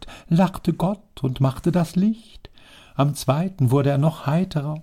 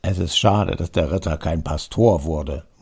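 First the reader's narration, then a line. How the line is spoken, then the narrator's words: Murmured into ear. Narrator (German): murmelte der Baron in das Ohr des Grafen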